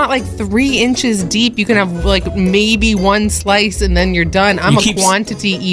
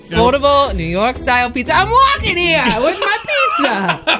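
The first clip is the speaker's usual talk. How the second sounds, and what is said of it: Put-on New York accent. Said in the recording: “accent”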